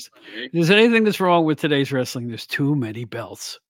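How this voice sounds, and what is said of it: Put-on old man voice. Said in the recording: “I'll use my old man voice.”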